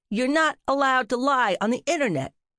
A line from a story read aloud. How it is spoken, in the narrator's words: Cap bellowed